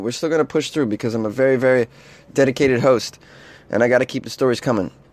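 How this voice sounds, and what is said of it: Worn-out, tired voice. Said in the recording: “I want to apologize for my voice, ... this is like 10, 12 days into my East Coast trip, and it's just like I've been going nonstop, and this is what you get ... I'm a little hungover, and I'm lacking sleep”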